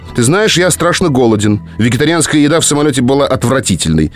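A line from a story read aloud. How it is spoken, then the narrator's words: Rapid growling Brooklyn English. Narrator (Russian): затараторил он на своем порыкивающем бруклинском английском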